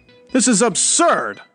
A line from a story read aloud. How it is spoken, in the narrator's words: I shouted